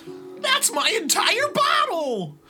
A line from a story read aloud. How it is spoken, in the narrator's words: slurred Buster